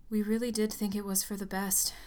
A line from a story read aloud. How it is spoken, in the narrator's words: she sighed